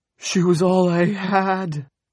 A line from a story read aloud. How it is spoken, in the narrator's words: Sanders screamed